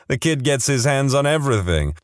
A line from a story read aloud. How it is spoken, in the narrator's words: she laughed and said